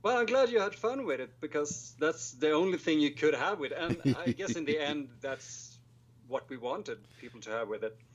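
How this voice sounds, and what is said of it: Swedish accent. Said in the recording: “the girls are eating up your accent right now ... That's more of a Swedish accent, really.”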